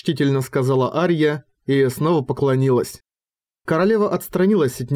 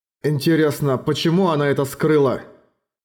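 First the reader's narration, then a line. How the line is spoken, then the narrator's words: Plain. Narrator (Russian): спросил Эрагон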